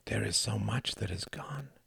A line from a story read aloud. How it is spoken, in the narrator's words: would whisper